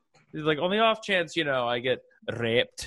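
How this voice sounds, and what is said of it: Put-on Scottish accent. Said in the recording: “every time she says the word rape, she does it with a Scottish accent ... it makes it easier if you say it with a Scottish accent”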